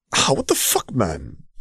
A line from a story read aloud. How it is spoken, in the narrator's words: he hissed back at Quinn